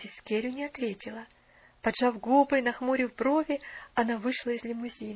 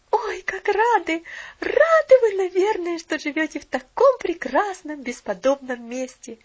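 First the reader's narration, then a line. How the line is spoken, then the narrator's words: Girl's exclamation. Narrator (Russian): воскликнула девочка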